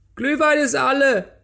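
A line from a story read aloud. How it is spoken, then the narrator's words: Deep-breath shout. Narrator (German): die Tapfere holte tief Luft und schrie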